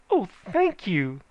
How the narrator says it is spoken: she panted

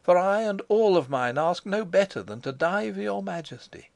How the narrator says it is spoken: I cried

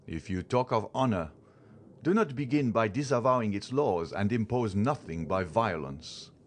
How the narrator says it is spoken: The general exclaimed

